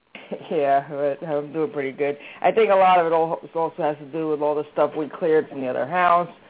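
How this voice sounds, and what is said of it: Voice sounds like a cold. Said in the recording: “I have a little bit of a cold ... I hear it in your voice”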